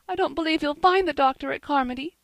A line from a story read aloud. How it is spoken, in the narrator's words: sobbed Diana